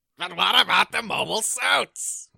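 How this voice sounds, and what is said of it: Impression of General Septim. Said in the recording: “get your impression of General Septim, please, in English? ... That's really good.”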